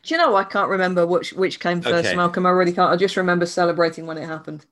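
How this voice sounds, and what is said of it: British accent. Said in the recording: “is from the UK ... It's a weird accent.”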